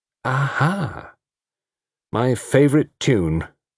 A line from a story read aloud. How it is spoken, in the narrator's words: said Tony Chapel mournfully